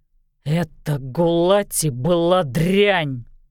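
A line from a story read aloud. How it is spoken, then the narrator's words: Growled. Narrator (Russian): прорычал Олис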